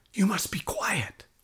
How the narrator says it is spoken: whispered a teacher

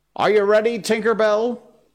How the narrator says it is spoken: He called out

